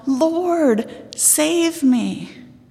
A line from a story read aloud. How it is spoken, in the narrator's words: He cried out